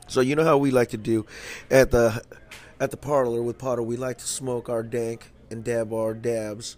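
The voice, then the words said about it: Hoarse, stuffed-up voice. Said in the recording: “I'm a little stuffed up ... As you can tell through my voice, it's a little hoarse.”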